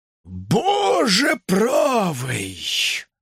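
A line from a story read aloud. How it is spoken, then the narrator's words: Strained utterance. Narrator (Russian): выдавил из себя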